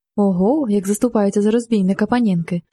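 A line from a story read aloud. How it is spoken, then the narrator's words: Laughing. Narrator (Ukrainian): засміявся він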